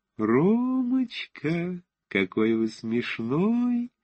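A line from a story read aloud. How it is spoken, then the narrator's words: Thin childlike singsong. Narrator (Russian): пропела она тоненьким детским голоском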